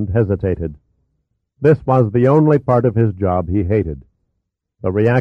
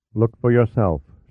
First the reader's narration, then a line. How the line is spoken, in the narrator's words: said in a flat monotone